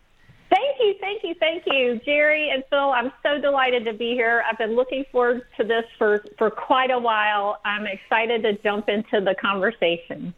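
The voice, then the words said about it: Slight Southern Alabama accent. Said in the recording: “We share a little bit of an accent, I think, and there's an Alabama connection there”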